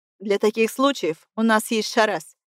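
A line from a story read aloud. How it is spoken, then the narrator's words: Snorted. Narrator (Russian): фыркнул Элгар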